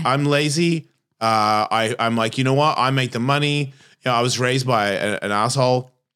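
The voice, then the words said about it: Australian accent. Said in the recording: “there's like a same as my accent. I've been here for 33 years. Why do I sound like this? I'm not Australian anymore ... It's just baked in.”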